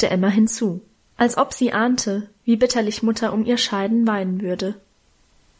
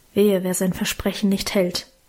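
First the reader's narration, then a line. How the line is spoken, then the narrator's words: Murmur. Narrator (German): murmelte Guste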